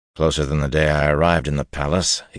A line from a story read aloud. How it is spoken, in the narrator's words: growled